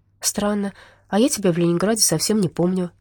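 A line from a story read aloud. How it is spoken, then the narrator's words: Female sigh. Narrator (Russian): вздохнула Надя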